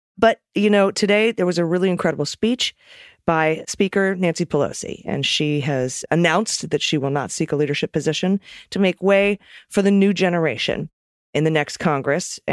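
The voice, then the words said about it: Slightly hoarse voice. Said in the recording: “My voice is a little hoarse. ... So I'm a little hoarse today from talking on the phone all day today and yesterday.”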